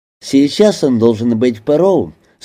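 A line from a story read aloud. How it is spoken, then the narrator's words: Plain. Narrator (Russian): сказал Мбали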